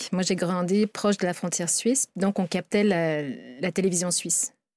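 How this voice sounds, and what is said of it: European French accent. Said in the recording (French): “mon accent, vous entendez que je suis outre-Atlantique”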